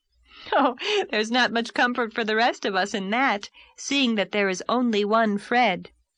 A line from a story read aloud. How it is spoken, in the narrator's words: laughed Anne